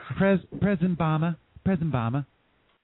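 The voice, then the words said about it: Greta Van Susteren impression, Wisconsin accent. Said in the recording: “a thick Wisconsin accent, I think of that bitch Greta Van Susteren ... heard that her say President Obama? Have you heard the way she says it?”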